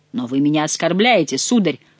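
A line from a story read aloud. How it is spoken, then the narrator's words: Exclaimed. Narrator (Russian): воскликнул граф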